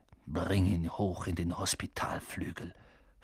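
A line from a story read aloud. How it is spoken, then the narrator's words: Hissed. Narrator (German): fauchte Snape Seamus an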